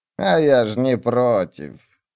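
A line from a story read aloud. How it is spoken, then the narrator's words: Grumbling. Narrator (Russian): пробурчала Пулли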